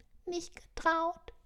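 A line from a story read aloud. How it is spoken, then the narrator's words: Squeaking elf. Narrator (German): piepste die Elfe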